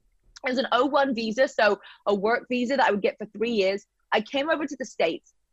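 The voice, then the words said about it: British accent. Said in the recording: “My British accent ... everyone's going to love my British accent”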